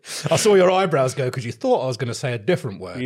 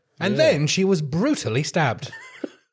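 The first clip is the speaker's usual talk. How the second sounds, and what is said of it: Documentary voiceover narrator voice. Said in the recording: “You have such a good reading voice. ... It's my documentary voiceover.”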